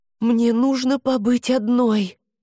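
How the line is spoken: Breathed out. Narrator (Russian): выдохнула Хести

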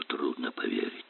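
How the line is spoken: Muttering. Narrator (Russian): Он бормоча

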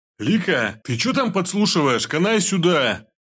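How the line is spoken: Shout. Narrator (Russian): крикнул пельмень

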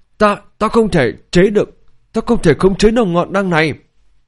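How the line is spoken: Trembling, strained voice. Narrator (Vietnamese): Tên tướng lĩnh thao túng hỏa diễm, cả người run rẩy cố gắng nói

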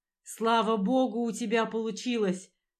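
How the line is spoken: Shouting over the wind. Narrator (Russian): заорал, стараясь перекричать ветер

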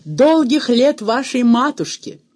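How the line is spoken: Ecstatic group shout. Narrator (Russian): Танцоры в порыве восторга закричали

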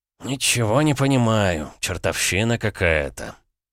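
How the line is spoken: Muttering. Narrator (Russian): пробормотал он

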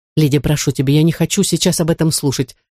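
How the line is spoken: Sharp interruption. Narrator (Russian): резко оборвала дочь Элис

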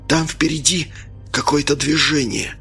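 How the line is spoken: Whispering. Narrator (Russian): прошептал Смирнов

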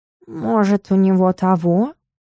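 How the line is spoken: Muffled whisper. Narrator (Russian): глухим шепотом поинтересовался Стикс

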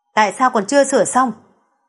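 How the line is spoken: Impatient, irritated. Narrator (Vietnamese): Hans sốt ruột bực bội nói

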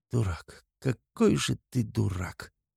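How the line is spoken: Muttered in denial. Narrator (Russian): бормочет она, все еще пребывая в стадии отрицания

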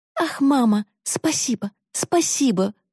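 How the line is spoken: Exclaiming. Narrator (Russian): воскликнула Корделия

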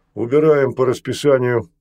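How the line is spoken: Barked. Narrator (Russian): гаркнул Секач

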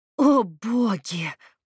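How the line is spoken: Moan. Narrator (Russian): простонала Надя

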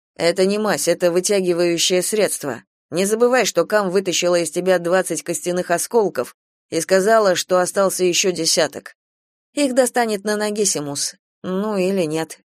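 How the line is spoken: Gloomy female voice. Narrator (Russian): мрачно сказала Гидеон

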